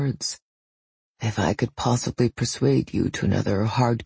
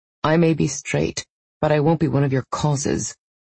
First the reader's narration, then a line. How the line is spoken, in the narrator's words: she scoffed